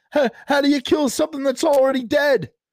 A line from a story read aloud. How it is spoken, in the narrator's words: blurted out